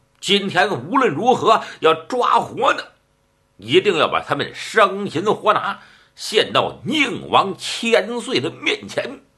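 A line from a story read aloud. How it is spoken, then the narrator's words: Shout. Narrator (Chinese): 马天龙喊了一声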